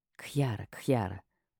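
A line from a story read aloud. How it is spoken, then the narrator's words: Agreeing whisper. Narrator (Russian): прошептала, соглашаясь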